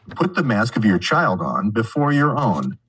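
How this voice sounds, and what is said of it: Announcer-style radio voice. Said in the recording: “I was doing TSA announcements for the transportation safety. So that's why I have my radio voice.”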